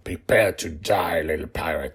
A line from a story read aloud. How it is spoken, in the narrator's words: growled